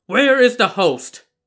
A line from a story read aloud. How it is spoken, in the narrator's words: He pounded the table and shouted